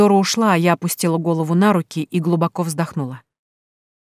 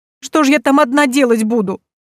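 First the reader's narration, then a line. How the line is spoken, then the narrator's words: Sobbing. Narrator (Russian): всхлипнула подруга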